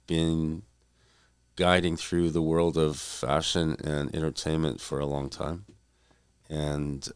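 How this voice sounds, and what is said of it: Voice sounds a bit ill. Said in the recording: “excuse my voice, too, because I'm a little bit under the weather, a little bit”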